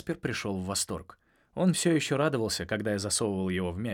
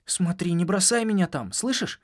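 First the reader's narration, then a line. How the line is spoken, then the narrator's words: Anxious. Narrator (Russian): сказал он ... взволнованно глядя на меня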